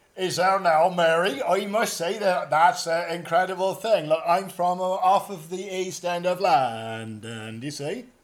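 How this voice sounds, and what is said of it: Exaggerated put-on Cockney accent. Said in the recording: “his American stroke Cockney accent”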